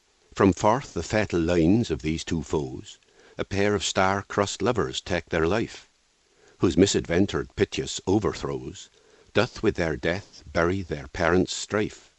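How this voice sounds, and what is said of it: Unusual accent with West Country r. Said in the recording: “It's an unusual accent, isn't it? You can hear resonances of all kinds of modern accents, and yet it's like none of them. Some of you will hear West Country England, especially because of the "r" after vowels. Some might hear fragments of Wales or Ireland, especially in the long vowels like "o". Certain words have echoes of American English.”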